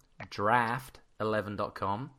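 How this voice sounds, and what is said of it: Put-on American accent. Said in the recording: “I'll even say it with an American accent.”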